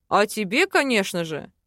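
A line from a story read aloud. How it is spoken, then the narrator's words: Smirking grunt. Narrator (Russian): хмыкнул Мар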